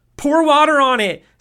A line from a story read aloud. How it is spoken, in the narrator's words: Seth yelled as he ran further away from Marcos